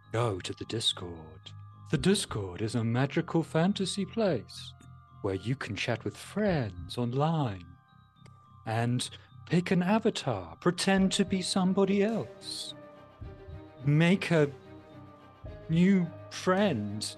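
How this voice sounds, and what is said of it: Strange put-on voice. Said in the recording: “I'm going to keep talking in this strange voice while things happen.”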